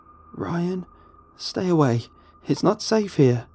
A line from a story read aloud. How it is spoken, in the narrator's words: she begged